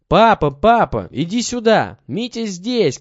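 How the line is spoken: Shouting together. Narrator (Russian): кричали они вместе

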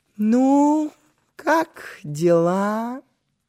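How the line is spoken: Sing-song question. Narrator (Russian): Нараспев спросила она

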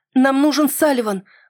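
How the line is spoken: Exclamation. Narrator (Russian): воскликнул я

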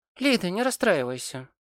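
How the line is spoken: Encouraging. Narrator (Russian): ободряюще сказала Софи

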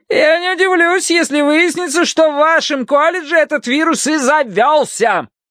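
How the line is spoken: Shouted after someone. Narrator (Russian): крикнула им вдогонку миссис Гадсон

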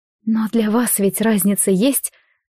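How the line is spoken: Too plaintive voice. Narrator (Russian): собственный голос звучал слишком жалобно

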